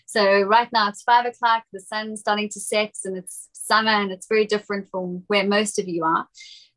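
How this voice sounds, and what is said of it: South African accent. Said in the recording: “This is not a British accent or an Australian accent. It's South African. It probably sounds a lot like those two, but it's not.”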